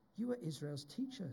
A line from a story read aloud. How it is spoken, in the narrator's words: said Jesus